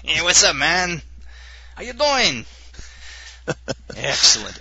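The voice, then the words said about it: Imitates another person, Cheech-and-Chong style. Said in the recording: “this is your Tony Pena impersonation by way of Cheech and Chong”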